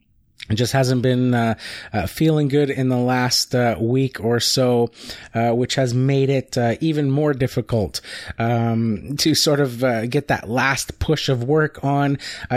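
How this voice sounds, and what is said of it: Voice sounds different, sick with cold. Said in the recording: “as you can probably hear, my voice sounds a little bit different. I'm coming down with a cold or something.”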